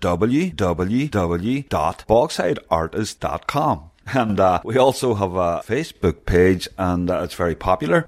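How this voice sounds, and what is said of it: Derry accent. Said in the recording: “My Derry accent”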